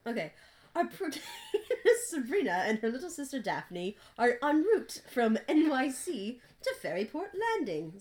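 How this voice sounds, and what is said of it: Reads aloud in put-on accent. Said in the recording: “you have to keep the accent.”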